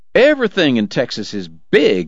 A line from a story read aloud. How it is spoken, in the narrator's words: Eddie was hollering now